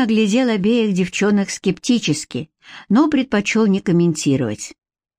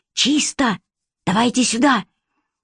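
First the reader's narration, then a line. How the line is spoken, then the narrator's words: Whisper. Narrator (Russian): шепнул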